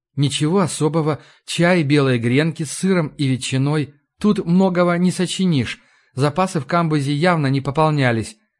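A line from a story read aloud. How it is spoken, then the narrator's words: Sighing. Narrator (Russian): вздохнула Ларри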